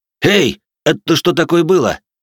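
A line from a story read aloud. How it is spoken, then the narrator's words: Indignant shout. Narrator (Russian): Возмущение Кармина было настолько искренним, что он даже закричал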